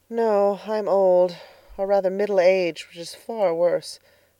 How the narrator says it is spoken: sighed Miss Lavendar

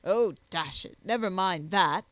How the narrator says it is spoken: exclaimed Jack

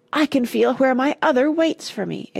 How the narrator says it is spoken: it cried excitedly

